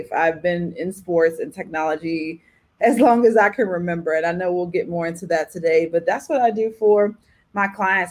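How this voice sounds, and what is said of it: Thick Baltimore accent. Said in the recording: “I'm originally born and raised from Baltimore, Maryland. If you can't tell by my thick accent”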